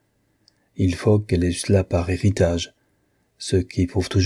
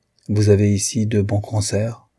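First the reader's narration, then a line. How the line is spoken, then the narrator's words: Icy tone. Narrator (French): dit-elle d'un ton glacial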